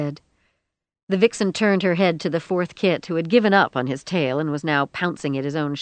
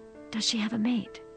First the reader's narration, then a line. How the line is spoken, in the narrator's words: Rosie whispered